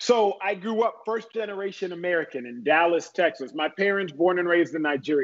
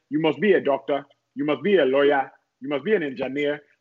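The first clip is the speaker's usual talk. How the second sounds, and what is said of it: Thick Nigerian accent. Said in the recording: “as my parents would say in their thick Nigerian accent”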